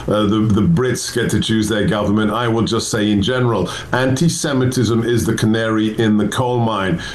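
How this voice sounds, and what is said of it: British accent. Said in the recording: “my friends at GB News always want me, because of my accent, to give you advice to the British government”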